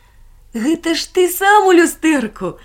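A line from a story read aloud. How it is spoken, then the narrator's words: Laughing. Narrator (Russian): засмеялся Барбос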